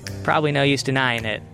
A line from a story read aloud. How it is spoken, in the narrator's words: Albie said